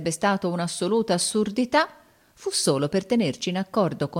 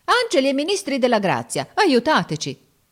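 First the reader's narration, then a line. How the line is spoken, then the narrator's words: Exclaimed. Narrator (Italian): esclamò Giorgio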